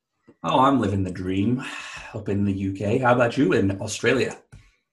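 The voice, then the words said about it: American accent. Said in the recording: “I love the American accent straight away ... slipped out straight away”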